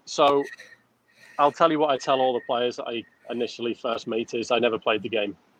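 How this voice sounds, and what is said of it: Non-American accent. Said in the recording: “Obviously you're not from the United States based on that accent.”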